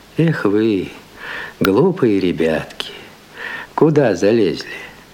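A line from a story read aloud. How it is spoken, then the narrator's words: Gentle, affectionate. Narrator (Russian): мужик ласково проговорил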